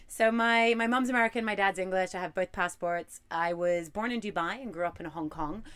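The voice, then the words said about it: Noticeable accent. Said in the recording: “you're probably hearing an accent right now ... it's the mermaid accent”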